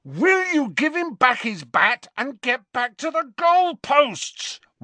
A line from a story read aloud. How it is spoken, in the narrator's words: roared Harry